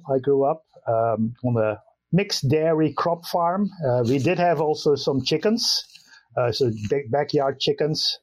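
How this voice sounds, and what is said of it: Dutch accent. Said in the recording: “you may hear from my accent, I'm not originally from the U.S., I'm actually from the Netherlands”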